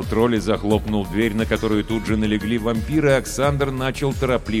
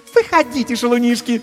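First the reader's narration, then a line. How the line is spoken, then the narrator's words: Languid squeal. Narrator (Russian): томно взвизгнула Катисса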